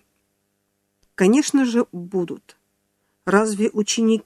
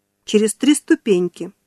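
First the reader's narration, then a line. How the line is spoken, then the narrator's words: Cheerful. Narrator (Russian): весело ответила Нана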